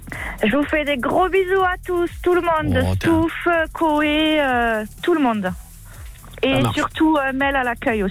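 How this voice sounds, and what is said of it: Sing-song southern French accent. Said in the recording (French): “l'accent, à mon avis, on est du côté d'Albi ... on est dans le sud ... C'est un accent qui est très particulier. Chantant. Autour d'Albi.”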